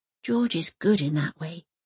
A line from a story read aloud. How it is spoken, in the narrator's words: she whispers